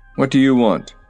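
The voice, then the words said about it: Stern, gruff voice. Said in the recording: “a third voice in a stern, gruff accent”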